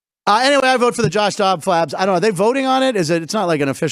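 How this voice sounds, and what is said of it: Usual voice. Nothing is said of it.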